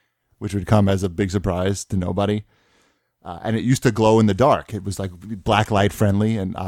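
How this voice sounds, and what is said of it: Usual voice. Nothing is said of it.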